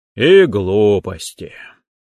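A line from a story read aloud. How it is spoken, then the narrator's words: Melancholy sigh. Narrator (Russian): меланхолично вздохнул Локанг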